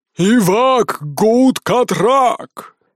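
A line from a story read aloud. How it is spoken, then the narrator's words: Ferocious frustrated yell. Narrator (Russian): свирепо завопил орк, которому прибывшие из другого времени чужаки никак не отвечали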